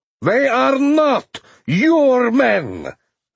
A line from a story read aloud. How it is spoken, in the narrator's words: Luganov bellowed